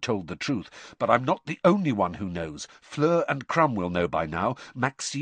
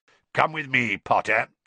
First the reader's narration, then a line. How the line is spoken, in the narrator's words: growled